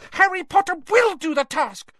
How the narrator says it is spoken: squeaked the elf

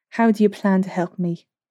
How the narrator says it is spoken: Slate sighed

